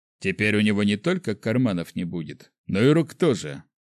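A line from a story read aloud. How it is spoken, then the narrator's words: Irritated snort. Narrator (Russian): фыркнул Сайван больше от раздражения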